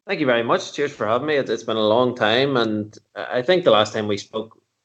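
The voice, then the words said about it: Irish accent. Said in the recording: “the first ever Irish guest ... if you can't understand the accent, tough”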